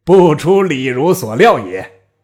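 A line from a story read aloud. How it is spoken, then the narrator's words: Loud laughter. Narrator (Chinese): 吕布大笑曰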